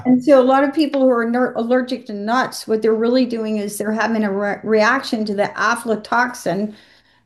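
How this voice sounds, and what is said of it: Southern American accent. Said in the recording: “my American accent, my Southern ... I'm from Georgia”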